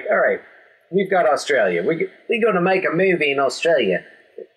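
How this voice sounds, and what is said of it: Put-on Australian accent. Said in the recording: “It's my Australian accent. ... Very nice.”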